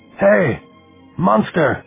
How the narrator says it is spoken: he shouted, his hands cupped around his mouth

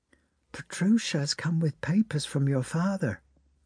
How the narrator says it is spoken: whispered the maid

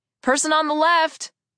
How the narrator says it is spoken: I called out

